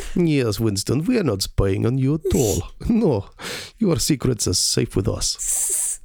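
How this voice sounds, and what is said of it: Inconsistent put-on Russian accent. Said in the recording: “the Russians are like ... My accents are all over the place.”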